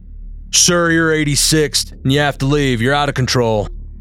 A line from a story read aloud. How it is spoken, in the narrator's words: they boomed in their deep voices